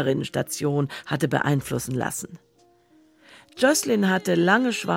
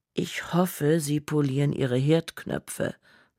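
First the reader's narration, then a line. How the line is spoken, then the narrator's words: Calm female voice. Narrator (German): sagte sie ruhig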